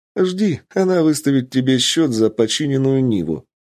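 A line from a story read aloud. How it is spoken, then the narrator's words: Laughing. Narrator (Russian): рассмеялась Ольга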